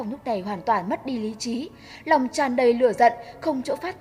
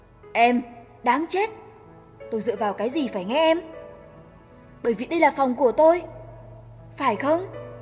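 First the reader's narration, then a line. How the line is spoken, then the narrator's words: Angry laughing speech. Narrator (Vietnamese): Thế Phong giận dữ cười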